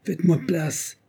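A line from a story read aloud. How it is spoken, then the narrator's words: Exclamation. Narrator (French): s'écria-t-elle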